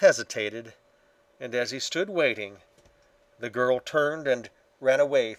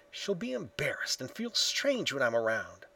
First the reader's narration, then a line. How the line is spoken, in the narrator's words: he whispered to himself